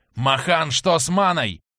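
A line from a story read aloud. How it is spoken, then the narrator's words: Hoarse growl, nonstop. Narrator (Russian): прорычала-прохрипела Барсина без остановки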